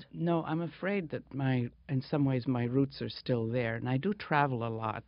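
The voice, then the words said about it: Discernible foreign accent. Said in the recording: “you have a discernible accent still ... you've been in this country for over 50 years ... an American artist or a European artist?”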